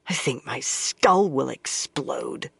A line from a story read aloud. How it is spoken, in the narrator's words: she muttered